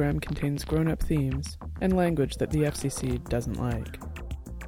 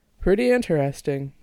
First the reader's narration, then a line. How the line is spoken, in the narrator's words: Jack said